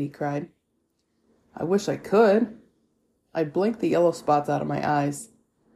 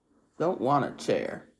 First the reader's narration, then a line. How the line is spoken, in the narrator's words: he muttered